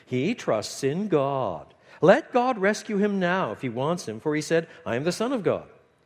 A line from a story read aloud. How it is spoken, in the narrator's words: Still sneering, cry mockingly